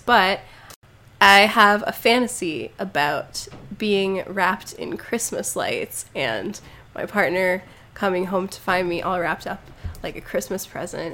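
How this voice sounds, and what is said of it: Sick-sounding voice. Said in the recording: “I'm very sick right now, so I'm sorry about my voice”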